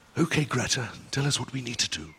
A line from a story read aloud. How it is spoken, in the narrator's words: Uncle Bulgaria whispered solemnly